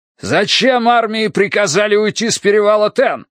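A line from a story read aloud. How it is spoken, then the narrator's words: Pained shout, old commander. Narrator (Russian): крикнул седобородый командир, и Тай услышал боль в его голосе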